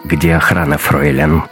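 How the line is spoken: Icy question. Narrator (Russian): ледяным голосом спросил Раттенхубер

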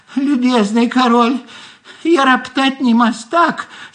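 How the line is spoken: Small squeaky voice. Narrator (Russian): снизу опять пропищал голосок

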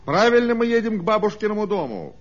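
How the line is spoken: Plain question. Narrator (Russian): спросил машинист

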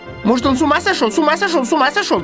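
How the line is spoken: Rapid chattering, magpie. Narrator (Russian): тараторила сорока

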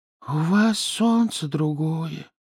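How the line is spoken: Breathless hedgehog. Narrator (Russian): выдохнул ежик

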